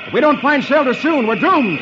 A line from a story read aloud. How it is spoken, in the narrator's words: Flash can scarcely make himself heard as he shouts